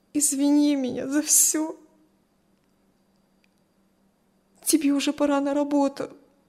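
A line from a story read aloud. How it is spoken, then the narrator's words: Strained, through tears. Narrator (Russian): Все еще сквозь слезы выдавила Кристи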